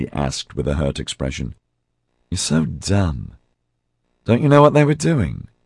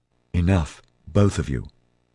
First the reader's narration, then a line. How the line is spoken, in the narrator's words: Liz said firmly